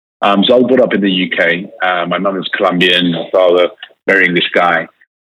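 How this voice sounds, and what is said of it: British accent. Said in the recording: “it's very British”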